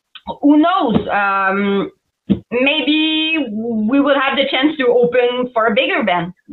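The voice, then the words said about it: French Canadian accent. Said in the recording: “I'm a French Canadian for everybody that didn't know ... with my accent.”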